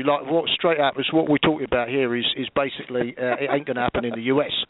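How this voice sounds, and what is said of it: London cabbie accent. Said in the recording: “I'll do it as a cabbie”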